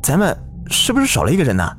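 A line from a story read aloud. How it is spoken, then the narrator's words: Alarmed cry. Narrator (Chinese): 小赵惊叫道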